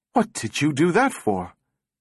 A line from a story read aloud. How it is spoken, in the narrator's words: Powell gasped